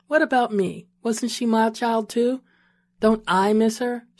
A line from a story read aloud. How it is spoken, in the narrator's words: she asked